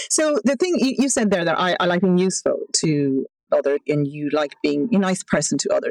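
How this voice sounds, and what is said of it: Irish accent. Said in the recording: “I really enjoy your Irish accent”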